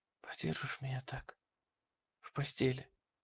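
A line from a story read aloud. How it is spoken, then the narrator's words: Whispered. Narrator (Russian): прошептала она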